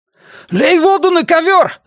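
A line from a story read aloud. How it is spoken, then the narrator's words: Shouting. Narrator (Russian): закричал Тони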